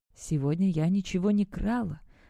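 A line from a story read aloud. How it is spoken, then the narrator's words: Whispering. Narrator (Russian): прошептала она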